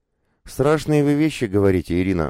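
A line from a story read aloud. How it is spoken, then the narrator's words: Sighing. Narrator (Russian): вздохнула Мария Федоровна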